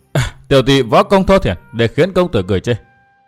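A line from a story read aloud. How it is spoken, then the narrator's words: Scornful sneer. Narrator (Vietnamese): Thiếu nữ khỏe mạnh cười khẩy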